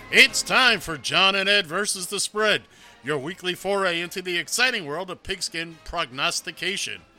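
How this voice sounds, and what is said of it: Exaggerated radio announcer voice. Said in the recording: “I'm really overdoing the radio voice today”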